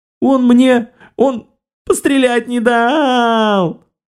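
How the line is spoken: Convincing sobbing. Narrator (Russian): напарница начала весьма натурально рыдать, зарывшись лицом в комбез инквизиторши

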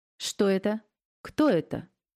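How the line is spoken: Dry, disgusted question. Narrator (Russian): тут же сухо спросил он у Леонида, как-то брезгливо

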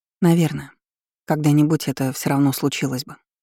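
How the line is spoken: Calm. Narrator (Russian): спокойно произнесла я

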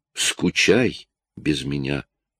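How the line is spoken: Barely audible mutter. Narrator (Russian): пробормотала еле слышно

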